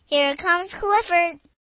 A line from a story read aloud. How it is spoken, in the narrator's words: all yelled